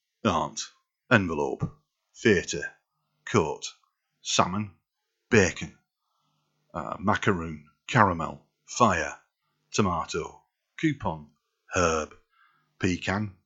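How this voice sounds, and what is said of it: Put-on Yorkshire accent. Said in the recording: “I can do Yorkshire, so a bit of the Sean Beans”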